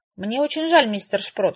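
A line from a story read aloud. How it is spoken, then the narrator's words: Sighing. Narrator (Russian): вздохнула я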